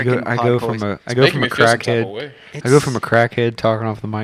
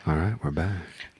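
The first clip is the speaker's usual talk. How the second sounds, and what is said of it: Very soft, calm radio-host voice. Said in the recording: “I got a very soft voice when I come back ... It's such a podcast voice. It's like a Bob Ross... ... It's NPR”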